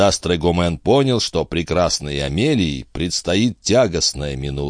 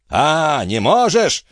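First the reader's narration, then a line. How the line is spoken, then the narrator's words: Shouted. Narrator (Russian): закричал дядюшка Антифер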